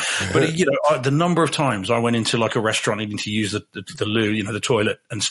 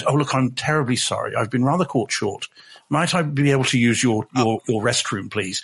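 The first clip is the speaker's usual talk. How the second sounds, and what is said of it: Exaggerated posh English accent. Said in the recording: “talk poshly in your English accent”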